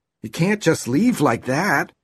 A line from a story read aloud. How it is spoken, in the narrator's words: he exclaimed